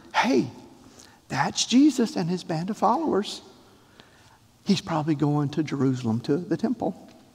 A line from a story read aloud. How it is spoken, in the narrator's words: Somebody near him probably whispered